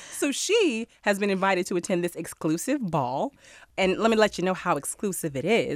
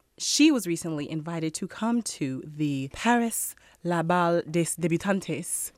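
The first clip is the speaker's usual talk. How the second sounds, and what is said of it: Mock Spanish-sounding French pronunciation. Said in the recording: “Why that was a Spanish accent? ... It's like a Franco-Spanish ball ... It was like a hybrid. You know, it's California French.”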